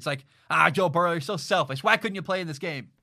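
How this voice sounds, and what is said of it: Sarcastic mock-complaining tone. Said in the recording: “I'm being sarcastic”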